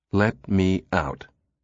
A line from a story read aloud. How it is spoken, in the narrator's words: Susan said as evenly as possible, feeling a sudden twinge of danger